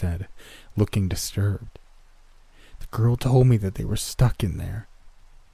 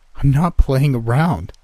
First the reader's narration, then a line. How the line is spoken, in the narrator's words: he said, his voice getting louder